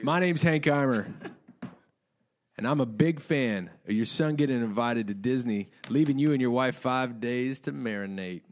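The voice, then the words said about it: Put-on sexy seductive voice. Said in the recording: “a sexy voice ... Is that sexy enough? ... Sexy, pretty sexy.”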